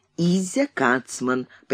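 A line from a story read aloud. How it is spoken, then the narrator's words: Velvety voice. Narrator (Russian): представился бархатным голосом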